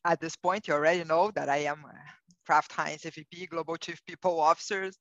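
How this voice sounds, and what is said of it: Non-native English, Brazilian accent. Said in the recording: “you will realize from my accent that I'm not a native English speaker. I'm originally from Brazil”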